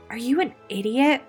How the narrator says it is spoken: Melissa demanded of David

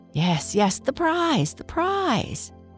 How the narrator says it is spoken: cried the rake, the shovel, and the pick

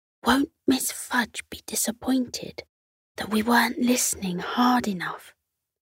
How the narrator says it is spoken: chuckled

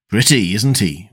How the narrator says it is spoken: Wisdom muttered

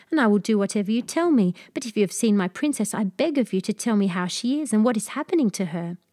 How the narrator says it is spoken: cried the king

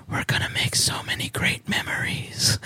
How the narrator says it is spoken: whispered

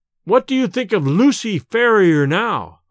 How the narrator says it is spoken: I cried

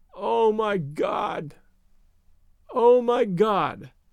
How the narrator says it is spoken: uttered over and over in a gasping moan

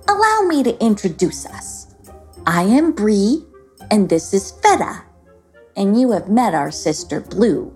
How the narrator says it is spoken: said Bree in a kind tone

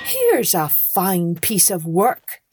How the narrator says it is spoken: he cried

